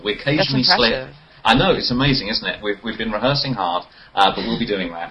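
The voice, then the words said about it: British accent. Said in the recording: “people who have a British accent”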